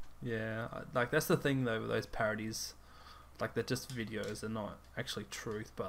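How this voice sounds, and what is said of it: Usual voice. Nothing is said of it.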